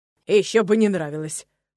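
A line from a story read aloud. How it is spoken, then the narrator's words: Snorting horse. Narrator (Russian): фыркнул конь соседнего стойла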